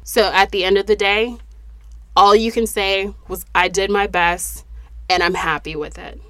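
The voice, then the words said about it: Voice not normal, breathing with difficulty. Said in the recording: “I hope that my voice is back to normal and I can breathe in the next episode.”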